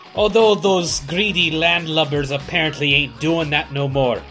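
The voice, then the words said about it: Put-on pirate voice. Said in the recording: “It must be some special day that you're talking like that. ... Talk Like a Pirate Day, so I'm getting me practicing in.”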